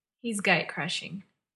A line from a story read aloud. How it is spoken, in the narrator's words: John said with a sigh